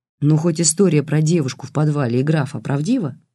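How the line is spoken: Plain question. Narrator (Russian): спросил Бабкин

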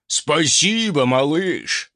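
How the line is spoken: Contented rumble. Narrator (Russian): довольно прогудел Свальдо

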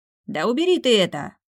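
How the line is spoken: Muffled bark through wall. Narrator (Russian): рявкнул кто-то за стеной

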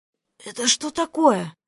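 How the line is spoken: Hoarse, shaken voice. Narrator (Russian): севшим от недавних переживаний голосом просипела я

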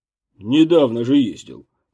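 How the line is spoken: Grumbling. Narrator (Russian): проворчал главный врач

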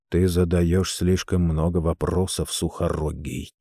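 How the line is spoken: Quiet voice. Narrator (Russian): тихим голосом сказал

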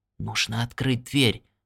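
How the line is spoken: Whispered. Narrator (Russian): прошептал он

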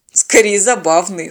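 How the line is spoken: Snorting remark. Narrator (Russian): хмыкнул пилот

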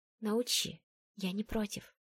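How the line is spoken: Whisper. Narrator (Russian): прошептала я

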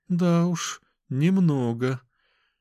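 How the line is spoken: Sigh. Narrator (Russian): вздохнула Оксана

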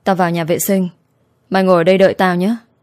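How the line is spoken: Hoarse voice. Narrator (Vietnamese): Diễm My nói giọng khàn khàn

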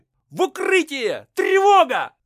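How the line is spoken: Shouting. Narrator (Russian): закричал Кондратий

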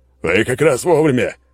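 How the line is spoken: Shouted. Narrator (Russian): крикнул

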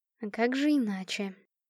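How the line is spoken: Muttered. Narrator (Russian): пробормотала

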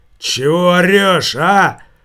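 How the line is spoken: Drunken shout. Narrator (Russian): прокричал нетрезвым голосом

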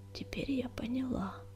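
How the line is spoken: Barely audible whisper. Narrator (Russian): еле слышно прошептала она

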